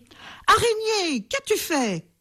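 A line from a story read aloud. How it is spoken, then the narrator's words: Dismayed exclamation. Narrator (French): s'écria-t-il lorsqu'il comprit ce qui s'était passé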